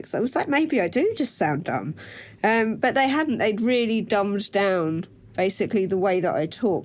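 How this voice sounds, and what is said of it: Essex accent. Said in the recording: “I've got an Essex accent”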